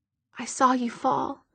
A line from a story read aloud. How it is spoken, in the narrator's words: Alec said quietly